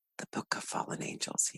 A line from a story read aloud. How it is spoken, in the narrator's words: whispered